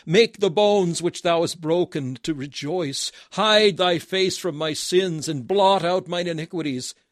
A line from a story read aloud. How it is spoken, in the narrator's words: to groan out with David